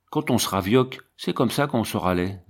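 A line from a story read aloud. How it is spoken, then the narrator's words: Plain. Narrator (French): dit Tirette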